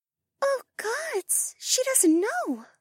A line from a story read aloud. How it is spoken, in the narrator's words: Mariah breathed